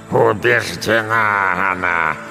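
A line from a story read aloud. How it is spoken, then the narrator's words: Growl, gradually calming. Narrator (Russian): прорычала бабушка, медленно успокаиваясь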